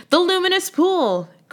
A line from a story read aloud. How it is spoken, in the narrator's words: cried the prince